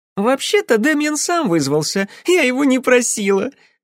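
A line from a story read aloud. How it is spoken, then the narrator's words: Laughing. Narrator (Russian): рассмеялась Розалинд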